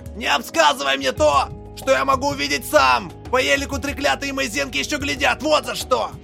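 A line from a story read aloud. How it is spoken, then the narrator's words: Bark. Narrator (Russian): Рявкнул режглотку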